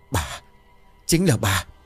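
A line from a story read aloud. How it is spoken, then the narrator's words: Stammering. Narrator (Vietnamese): Hoàng ấp úng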